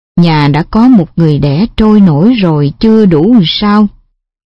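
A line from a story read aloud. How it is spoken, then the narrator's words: Weary, grieving sigh. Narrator (Vietnamese): Xanh xao và mất mát, má cũng kịp thở dài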